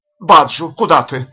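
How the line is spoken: Terrified shout. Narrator (Russian): в ужасе крикнул Джемс

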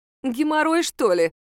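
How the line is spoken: Giggling. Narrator (Russian): хихикнула Мара

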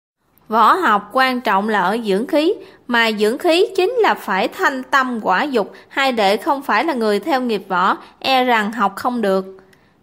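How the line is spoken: Smiling reply. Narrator (Vietnamese): Lam Đại Khôi mỉm cười đáp

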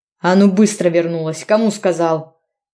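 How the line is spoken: Growl. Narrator (Russian): Рычал этот зверь

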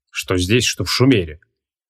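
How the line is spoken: Muffled but audible grumble. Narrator (Russian): Ворчал он приглушенно, но все же так, чтобы вы слышали в соседней комнате

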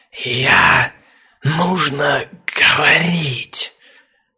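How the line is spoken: Dragon's hiss. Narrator (Russian): Снова прошипел дракон

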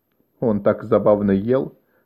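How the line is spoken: Plain. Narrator (Russian): сказал Драмин

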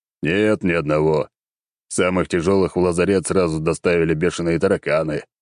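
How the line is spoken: Chuckling. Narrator (Russian): хохотнул Черномор

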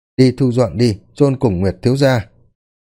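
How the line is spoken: Calm. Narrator (Vietnamese): Cung chủ lúc này đã bình tĩnh lại ... mà nói

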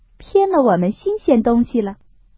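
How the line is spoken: Laughing. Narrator (Chinese): 宝钗笑道

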